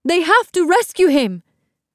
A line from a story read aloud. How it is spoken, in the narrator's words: Amara cried